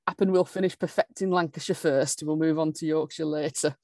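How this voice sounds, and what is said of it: Put-on Lancashire accent. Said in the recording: “perfecting worked, yes, so beautifully in that accent”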